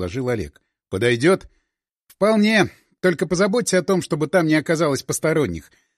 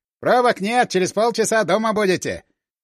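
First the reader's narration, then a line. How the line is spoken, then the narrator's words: Cheerful. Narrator (Russian): весело сказал старшина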